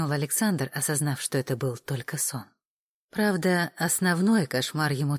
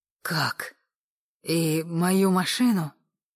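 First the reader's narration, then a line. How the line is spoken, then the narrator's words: Groaned. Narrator (Russian): простонал он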